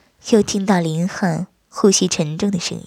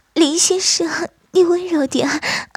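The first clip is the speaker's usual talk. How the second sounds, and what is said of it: Coy, breathy coquettish voice. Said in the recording (Chinese): “娇滴滴的声音说道”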